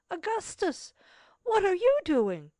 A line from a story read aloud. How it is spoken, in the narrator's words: exclaimed